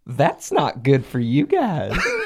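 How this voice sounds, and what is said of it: Baby voice. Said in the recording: “in a baby voice”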